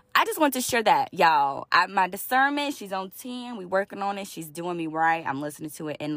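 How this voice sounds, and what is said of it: Loud, raised speaking voice. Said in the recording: “Sorry if I'm yelling at y'all right now. When I be in quiet spaces, my voice just tends to elevate a little bit.”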